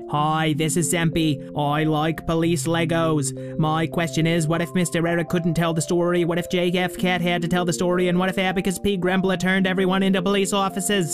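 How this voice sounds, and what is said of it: New York City accent. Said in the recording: “this is a perfectly acceptable new What City accent”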